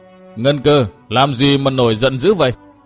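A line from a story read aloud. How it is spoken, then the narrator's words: Clear voice. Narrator (Vietnamese): một giọng trong rõ nói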